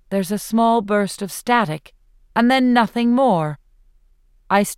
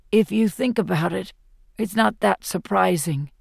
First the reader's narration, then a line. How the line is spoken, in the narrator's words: says softly